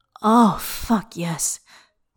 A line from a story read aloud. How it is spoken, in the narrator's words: pants